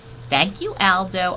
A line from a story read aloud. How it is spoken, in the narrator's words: I squeaked